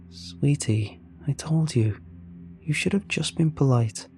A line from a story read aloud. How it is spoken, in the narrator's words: she let out a long sigh and said